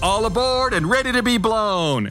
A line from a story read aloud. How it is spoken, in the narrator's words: whistles loudly